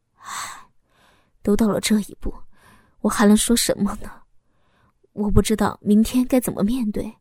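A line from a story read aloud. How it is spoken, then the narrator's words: Low voice. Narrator (Chinese): 老公低声的说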